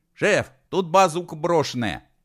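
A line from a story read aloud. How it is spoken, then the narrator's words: Shouting. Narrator (Russian): закричал Фудин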